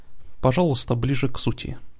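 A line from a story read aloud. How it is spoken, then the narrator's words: Cold request. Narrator (Russian): холодно попросила Алиана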